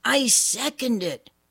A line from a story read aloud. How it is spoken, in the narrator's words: Jane yelled